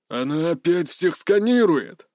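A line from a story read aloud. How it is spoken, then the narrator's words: Grumbling. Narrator (Russian): заворчал Джамал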